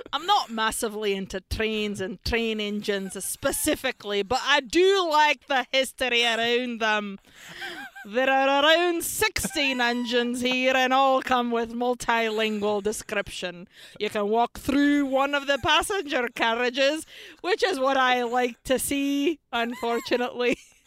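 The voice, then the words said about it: Poor put-on Scottish accent. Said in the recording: “Can you do it in a Scottish accent? ... This is so bad.”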